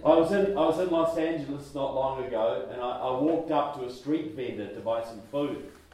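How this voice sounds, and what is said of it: New Zealand accent. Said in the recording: “Wow, you've got an accent. Like, where are you from? ... I'm from New Zealand.”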